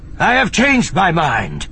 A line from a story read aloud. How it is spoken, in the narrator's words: Sabaoth cut him off sharply